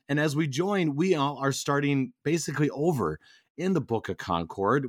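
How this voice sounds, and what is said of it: Voice not at full strength. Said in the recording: “my voice is still not 100%”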